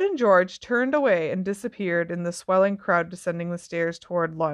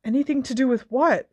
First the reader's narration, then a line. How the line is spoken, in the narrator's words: said Hermione anxiously